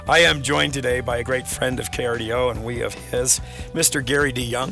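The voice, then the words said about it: Hoarse voice. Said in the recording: “A little hoarse today. ... laryngitis”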